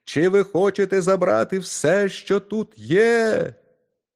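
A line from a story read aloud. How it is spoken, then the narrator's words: Shouting at top of voice. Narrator (Ukrainian): Мізинчик та як закричить на все горло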